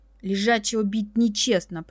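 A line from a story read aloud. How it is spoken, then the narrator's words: Hoarse gurgling whisper. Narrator (Russian): прошептала, слегка удивившись хриплому бульканью в груди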